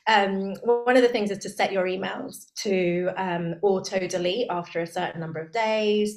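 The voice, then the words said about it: Strained, failing voice. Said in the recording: “I keep losing my voice.”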